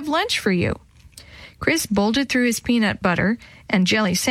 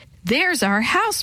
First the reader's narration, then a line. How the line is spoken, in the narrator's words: Maria cried